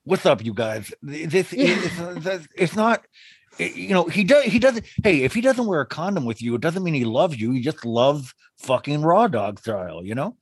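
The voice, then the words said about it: Lisping imitation of another person's voice. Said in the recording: “a Nick Vile impression of like his lisp”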